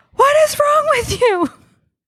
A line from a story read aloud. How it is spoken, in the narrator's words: I screamed obscenities at her about her being irresponsible